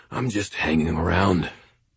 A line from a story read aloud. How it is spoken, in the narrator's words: rasped